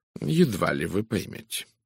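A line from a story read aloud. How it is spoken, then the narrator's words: Dry remark. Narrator (Russian): сухо заметил мой друг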